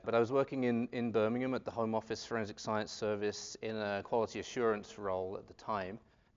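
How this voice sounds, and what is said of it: British English accent. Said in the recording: “I'd worked at the Forensic Science Service in the UK. I guess that's where I picked up this accent ... I'm from Southend-on-Sea, which is near London”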